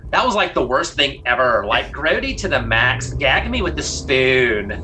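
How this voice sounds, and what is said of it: Valley Girl voice impression. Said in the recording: “my Valley Girl impersonation ... You do that too well.”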